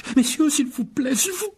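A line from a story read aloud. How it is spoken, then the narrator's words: Vendor's exclamation. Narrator (French): s'exclama un vendeur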